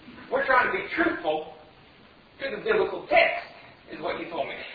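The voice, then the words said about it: Put-on West Virginia accent. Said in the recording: “I should do it in the West Virginia accent.”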